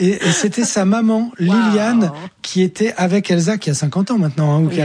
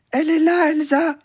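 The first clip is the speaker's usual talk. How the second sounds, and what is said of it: Small, childlike little voice. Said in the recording (French): “avec une petite voix comme ça”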